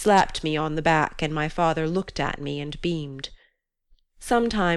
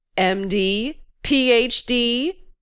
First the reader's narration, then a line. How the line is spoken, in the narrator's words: he bellowed